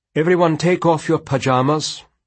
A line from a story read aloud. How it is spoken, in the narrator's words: Professor Vandervea called out